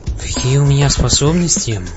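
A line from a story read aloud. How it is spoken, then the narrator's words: Sighing. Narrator (Russian): вздохнул я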